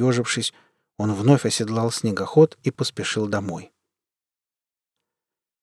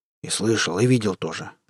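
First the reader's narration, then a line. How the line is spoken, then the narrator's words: Mumbled under breath. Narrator (Russian): буркнул под нос Захар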